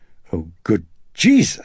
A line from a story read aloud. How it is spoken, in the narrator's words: she gasped